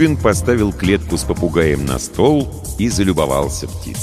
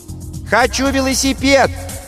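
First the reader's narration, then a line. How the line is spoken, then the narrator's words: Child shouting from afar. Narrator (Russian): крикнул со двора Максимка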